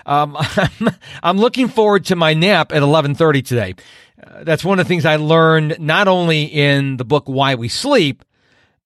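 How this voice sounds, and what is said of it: Tired, slightly slurred speech. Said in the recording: “I'm tired right now... if I sound like I'm slurring my words, I'm not drunk”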